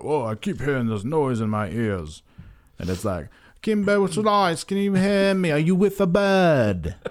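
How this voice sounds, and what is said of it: Bad put-on British accent. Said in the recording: “my bad British impression”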